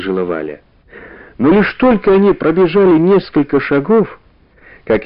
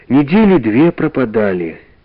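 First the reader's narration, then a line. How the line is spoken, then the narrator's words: Sigh. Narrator (Russian): вздохнула Валя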